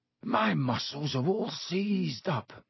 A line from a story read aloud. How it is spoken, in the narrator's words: he groaned